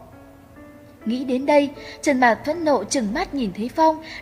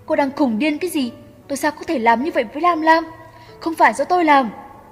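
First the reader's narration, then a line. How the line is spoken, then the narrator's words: Angry, blunt reply. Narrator (Vietnamese): Cận Thế Phong cũng không có chút khách khí, tức giận mà trả lời cô một câu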